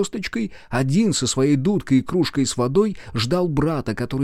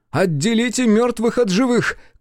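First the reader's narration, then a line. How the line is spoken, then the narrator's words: Shouted. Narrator (Russian): крикнул ученик голос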